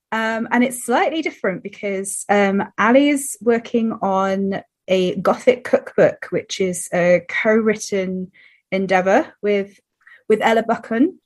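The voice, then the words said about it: Scratchy, slightly rough voice. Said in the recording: “my voice is still a little bit scratchy”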